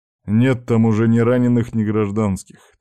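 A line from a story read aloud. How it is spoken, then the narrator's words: Heavy sigh. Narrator (Russian): тяжело вздохнул Сергей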